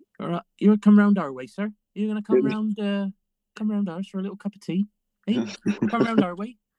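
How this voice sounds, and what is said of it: Put-on Bristolian West Country accent. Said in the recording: “What's the Bristolian accent? ... It's very westerly.”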